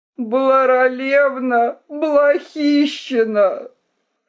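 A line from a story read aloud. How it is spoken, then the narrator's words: Despairing groaning cry. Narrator (Russian): всадник застонал в отчаянии и воскликнул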